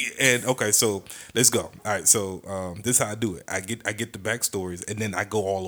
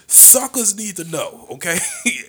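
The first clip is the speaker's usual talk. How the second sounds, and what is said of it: Imitates another person's voice. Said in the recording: “in my Stevie Ray voice from Harlem Heat.”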